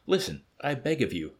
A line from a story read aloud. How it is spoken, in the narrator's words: cried the savage earnestly